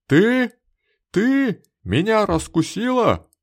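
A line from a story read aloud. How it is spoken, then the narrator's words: Heated exclamation. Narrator (Russian): воскликнул разгоряченный Балтахин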